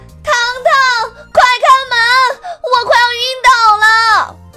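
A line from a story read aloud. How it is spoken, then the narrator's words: Wailing from outside. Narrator (Chinese): 糖糖之家的大门外传来小表姐鬼哭狼嚎的声音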